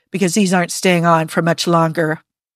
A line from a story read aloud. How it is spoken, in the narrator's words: growled